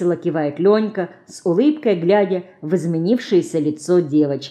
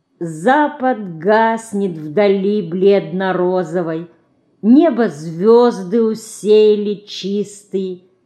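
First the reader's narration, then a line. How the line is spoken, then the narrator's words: Slow singing, imitating someone. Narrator (Russian): медленно запевает Динка, копируя дядю Леку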